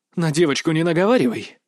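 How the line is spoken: Angry snarling woman. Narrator (Russian): зло оскалилась женщина

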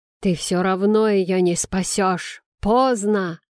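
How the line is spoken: Maniacal laughter. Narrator (Russian): захохотал окровавленный безумец

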